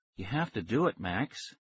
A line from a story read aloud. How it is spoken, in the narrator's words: she said softly